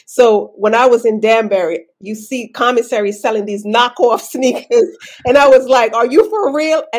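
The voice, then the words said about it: Brooklyn accent. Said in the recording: “Brooklyn accent shining through”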